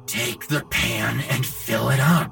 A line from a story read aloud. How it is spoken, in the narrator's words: his father hissed